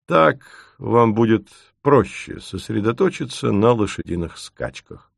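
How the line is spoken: Calm. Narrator (Russian): спокойно говорит он

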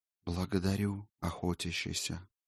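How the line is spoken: Ghostly whisper. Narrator (Russian): шепот призрака Иссор

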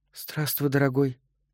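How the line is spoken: Whisper. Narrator (Russian): шепнула она

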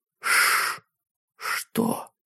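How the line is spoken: Whisper. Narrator (Russian): прошептала Сэнди

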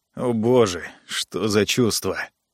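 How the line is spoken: Mutter. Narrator (Russian): пробормотал Джо

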